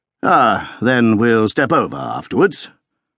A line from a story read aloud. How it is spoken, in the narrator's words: said coolly